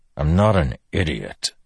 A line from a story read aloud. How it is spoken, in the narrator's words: Dalinar growled